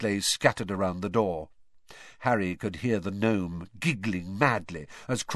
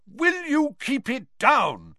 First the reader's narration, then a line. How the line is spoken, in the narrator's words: he bellowed